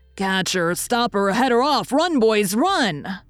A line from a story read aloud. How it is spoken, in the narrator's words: shouted Dan, tearing after her at his best pace